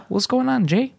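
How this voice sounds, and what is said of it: Impression of the host's father. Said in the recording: “do an impression of your dad”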